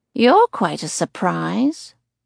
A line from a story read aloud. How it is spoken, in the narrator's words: she purrs